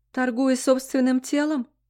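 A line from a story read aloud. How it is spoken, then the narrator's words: Sobbing. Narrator (Russian): всхлипнула я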